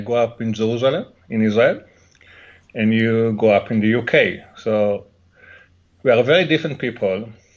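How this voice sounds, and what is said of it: Heavy Israeli accent. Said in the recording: “I have an heavy accent, so it's also very difficult to understand me”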